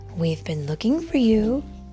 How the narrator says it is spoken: his mother told him tenderly

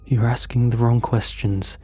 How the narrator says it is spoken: muttered

